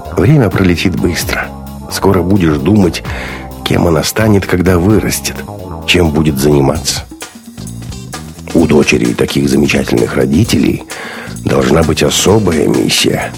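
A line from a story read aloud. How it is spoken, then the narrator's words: Soft, gentle. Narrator (Russian): мягко сказал Бунин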